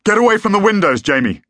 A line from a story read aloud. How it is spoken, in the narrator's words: he shouted